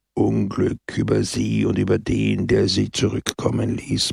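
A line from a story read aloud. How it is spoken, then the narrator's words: Gloomy murmur. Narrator (German): murmelte Pepone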